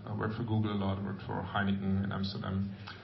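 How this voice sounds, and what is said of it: Slight German accent. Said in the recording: “I worked basically the last 20 years in advertising out of Hamburg, as you might realize from my little accent.”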